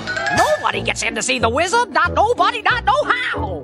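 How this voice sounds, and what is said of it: Cartoonish doorman character voice. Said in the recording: “doing that doorman voice”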